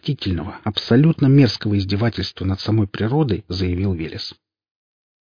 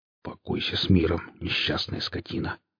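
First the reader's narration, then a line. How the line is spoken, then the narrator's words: Muttered. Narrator (Russian): пробормотал Велес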